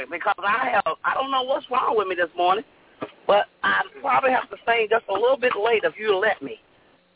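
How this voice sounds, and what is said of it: Hoarse voice. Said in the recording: “I don't know why I'm so hoarse ... hoarse ... this morning”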